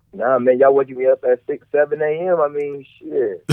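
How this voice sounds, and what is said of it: Groggy, just-woken-up voice. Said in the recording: “You sound groggy.”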